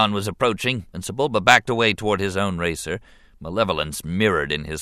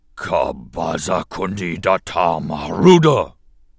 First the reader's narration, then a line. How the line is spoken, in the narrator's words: he growled